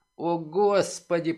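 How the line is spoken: Groaning. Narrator (Russian): простонал Дрейк

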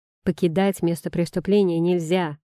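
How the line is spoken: Barked order. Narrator (Russian): гаркнул кто-то из полисмагов

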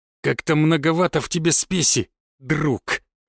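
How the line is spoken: Hiss. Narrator (Russian): прошипел Лесной

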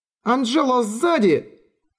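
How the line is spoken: Shouting. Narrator (Russian): Кристин закричала

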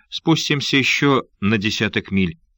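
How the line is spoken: Plain. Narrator (Russian): ответил тот

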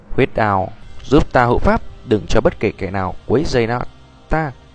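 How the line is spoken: Light laugh, calm. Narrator (Vietnamese): cười nhẹ một tiếng, thản nhiên nói

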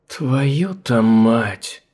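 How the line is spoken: Amazed breathless exclamation. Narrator (Russian): Изумленно выдохнула Чикахуа

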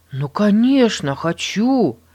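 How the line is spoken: Exclaiming. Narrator (Russian): воскликнул Эрнест

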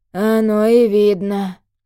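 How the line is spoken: Grumbling old man. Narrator (Russian): пробурчал дед

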